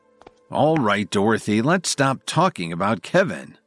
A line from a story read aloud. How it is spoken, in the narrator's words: groaned